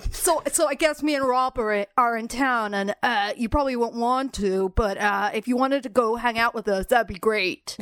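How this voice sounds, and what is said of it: Imitates another person's voice. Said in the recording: “good impression. That's a great impression”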